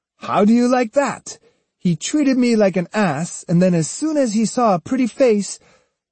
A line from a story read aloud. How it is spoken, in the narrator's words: Jotaro, in high dudgeon, exclaimed